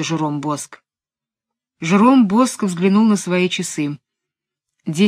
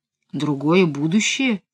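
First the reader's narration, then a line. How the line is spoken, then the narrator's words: Uncertain question. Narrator (Russian): неуверенно переспросил голос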